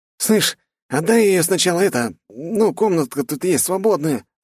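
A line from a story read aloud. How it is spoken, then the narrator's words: Hopeful whining. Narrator (Russian): заскулил лучник с надеждой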